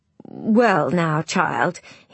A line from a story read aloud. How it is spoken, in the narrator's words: he stammered